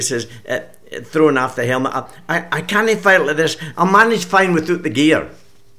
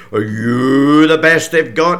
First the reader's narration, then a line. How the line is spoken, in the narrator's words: He sneers